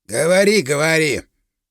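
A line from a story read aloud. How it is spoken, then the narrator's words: Worker grumbling. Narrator (Russian): пробурчал работяга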